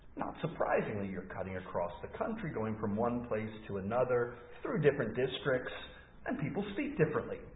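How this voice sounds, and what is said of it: Slight Scottish accent. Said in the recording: “I think I have my own accent, which distinguishes where I'm from ... my friends back home tell me I do sound a bit Scottish from time to time ... whether I have a obvious Scottish accent”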